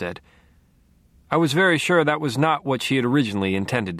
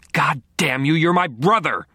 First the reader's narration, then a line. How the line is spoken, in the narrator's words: she snarled, and the ferocity of it took me completely by surprise